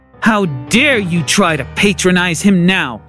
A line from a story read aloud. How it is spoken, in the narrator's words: She growled